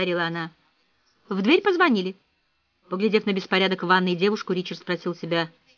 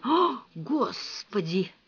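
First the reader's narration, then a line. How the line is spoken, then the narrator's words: Breathed out. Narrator (Russian): выдохнул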